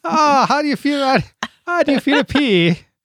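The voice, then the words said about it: Vague put-on accent, maybe Irish. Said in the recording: “I don't know what that accent was. Was that Irish?”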